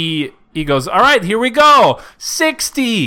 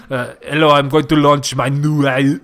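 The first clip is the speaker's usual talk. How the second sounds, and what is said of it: Poor attempt at a German accent. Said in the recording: “I don't know why my accent is like. ... Not at all German.”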